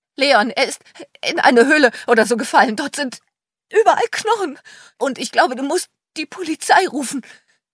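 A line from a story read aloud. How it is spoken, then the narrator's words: Breathless stammer. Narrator (German): stammelte völlig außer Atem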